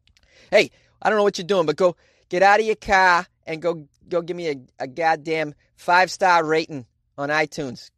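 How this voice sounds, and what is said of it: Exaggerated Boston accent. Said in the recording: “That's how we say it in Boston ... flexing my Boston accent”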